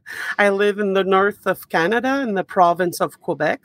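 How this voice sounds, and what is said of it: French-Canadian accent. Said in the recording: “with my accent, you can hear that I'm French-Canadian”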